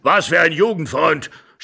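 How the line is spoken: Old man shouting angrily. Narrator (German): schrie der Alte und stampfte zornig mit dem Fuß auf

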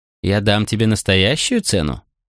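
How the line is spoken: Snorting. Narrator (Russian): Макрон фыркнул

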